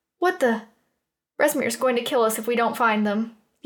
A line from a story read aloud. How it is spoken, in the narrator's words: the other said in a panicked voice